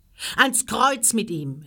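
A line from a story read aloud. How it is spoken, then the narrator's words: Crowd shouting together. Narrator (German): schrien sie alle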